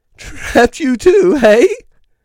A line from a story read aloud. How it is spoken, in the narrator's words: came a quavering voice